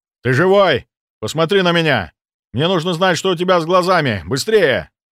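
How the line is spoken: Chess queen shouting. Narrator (Russian): крикнул ферзь

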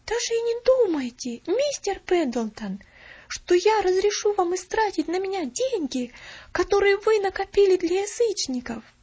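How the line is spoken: Resolute exclamation. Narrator (Russian): Решительно воскликнула она

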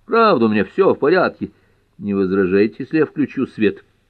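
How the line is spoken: Laughing. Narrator (Russian): Боярд засмеялся

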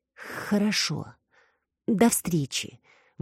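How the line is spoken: Forced-out words. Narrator (Russian): выдавила Алекс

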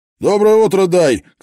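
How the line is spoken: Shouted greeting. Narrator (Russian): крикнул грузчик

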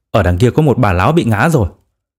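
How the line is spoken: Sudden exclamation. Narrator (Vietnamese): cậu tiến sĩ chợt kêu lên

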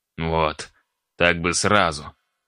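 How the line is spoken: Grumbling. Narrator (Russian): ворчал архимаг

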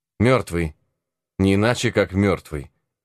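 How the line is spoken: Firm, resolute answer. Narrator (Russian): отвечал Зверобой твердым и решительным голосом

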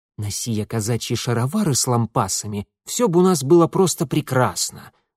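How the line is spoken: Sarcastic, through clenched teeth. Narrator (Russian): саркастически процедил Митя

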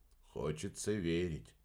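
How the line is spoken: Grumble. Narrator (Russian): проворчал Фелди

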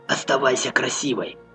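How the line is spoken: Muttered. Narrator (Russian): пробормотал он

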